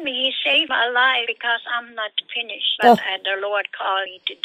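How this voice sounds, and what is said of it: Strong German accent. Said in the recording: “you can hear your strong Germany exit, you know, your accent”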